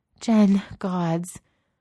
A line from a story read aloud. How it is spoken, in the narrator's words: Adrian gasps